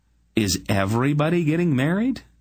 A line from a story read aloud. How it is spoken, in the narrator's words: Silk laughed